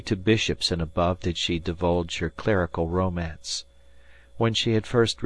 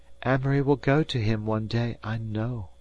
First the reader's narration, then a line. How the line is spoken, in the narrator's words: breathed the beautiful lady